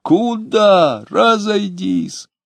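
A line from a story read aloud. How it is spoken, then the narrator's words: Angry, pleading shout. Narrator (Russian): Пристав закричал и гневно, и умоляюще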